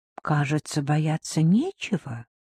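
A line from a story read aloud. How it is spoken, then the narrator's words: Quiet remark. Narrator (Russian): тихо заметила, наконец, Лайла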